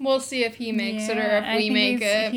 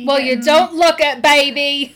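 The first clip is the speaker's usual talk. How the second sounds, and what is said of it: Austin Powers-style accent. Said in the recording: “I had a little Austin Powers accent there ... That was something ... a bit much”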